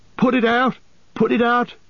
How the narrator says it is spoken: cried Merry

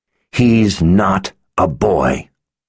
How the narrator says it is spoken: Anne growled

